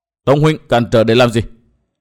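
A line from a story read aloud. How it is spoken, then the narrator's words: Angry question. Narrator (Vietnamese): Nguyên Bình tức giận hỏi Tông Đào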